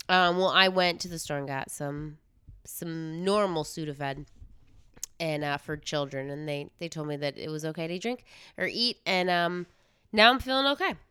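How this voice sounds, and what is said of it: Congested, rough sick voice. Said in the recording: “sorry if my voice is a little smelly cat-ish”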